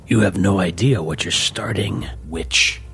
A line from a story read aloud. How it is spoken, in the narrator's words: growled